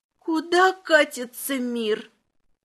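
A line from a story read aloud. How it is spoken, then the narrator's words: Choking with laughter. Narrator (Russian): Лепрекон подавился хохотом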